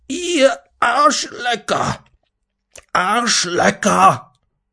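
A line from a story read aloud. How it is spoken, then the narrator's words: Furious trembling roar. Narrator (German): Schamrot im Gesicht und bebend vor Wut drehte Lasrado sich plötzlich dem Direktor, den Lehrern und Schülern zu und brüllte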